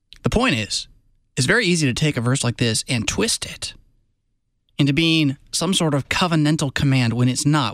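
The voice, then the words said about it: Southern American accent. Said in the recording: “forgive my Southern accent.”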